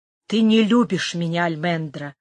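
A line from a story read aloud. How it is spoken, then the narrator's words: Quiet. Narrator (Russian): сказал он тихо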